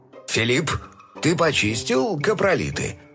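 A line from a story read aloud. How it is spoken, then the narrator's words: Stern question. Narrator (Russian): строго спросил отец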